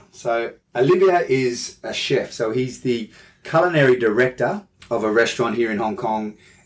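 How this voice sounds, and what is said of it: Australian accent. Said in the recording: “I'm Australian with an Australian accent.”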